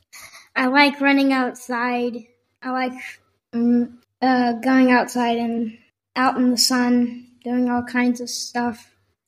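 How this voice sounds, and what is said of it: Texan accent. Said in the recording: “he has more of a Texan accent than I do”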